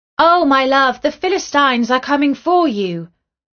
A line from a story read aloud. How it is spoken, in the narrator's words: she called out